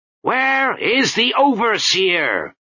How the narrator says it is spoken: He cupped his hands and shouted

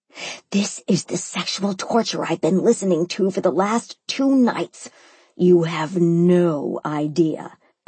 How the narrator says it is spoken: I growled, feeling the effects of the tequila

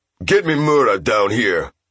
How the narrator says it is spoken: Taka barked

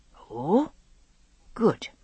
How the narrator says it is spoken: he said hesitantly

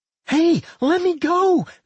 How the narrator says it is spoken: Millie screamed, struggling to break free

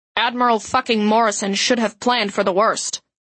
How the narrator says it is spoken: Admiral Christian snapped

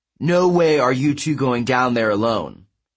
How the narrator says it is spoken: Percy said

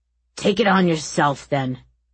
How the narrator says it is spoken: the soldier snapped

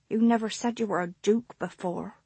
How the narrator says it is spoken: he mumbled

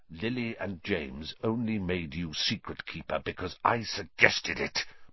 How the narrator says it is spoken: Black hissed, so venomously

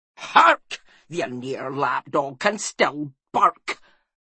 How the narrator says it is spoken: snapped Magrig

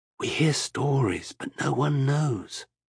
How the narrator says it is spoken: she said softly

